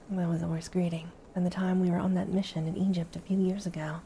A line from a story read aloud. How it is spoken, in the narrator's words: Kratos replied warmly